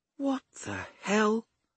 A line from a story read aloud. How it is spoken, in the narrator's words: Flynn muttered